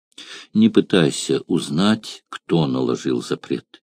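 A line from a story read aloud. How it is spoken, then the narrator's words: Sad young woman. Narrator (Russian): печально ответила девушка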